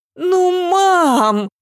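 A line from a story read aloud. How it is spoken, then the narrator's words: Drawn-out sob. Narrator (Russian): протяжно всхлипнула Ася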